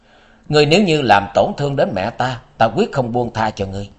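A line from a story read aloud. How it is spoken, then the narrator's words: Gloomy sigh, then resolute. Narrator (Vietnamese): U Minh công chúa âm u thở dài một tiếng, sau đó dứt khoát nói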